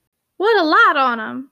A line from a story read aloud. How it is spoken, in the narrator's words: cried Eliza, who was cook